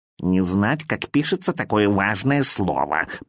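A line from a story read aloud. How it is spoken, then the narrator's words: Grumbling cat. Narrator (Russian): проворчал кот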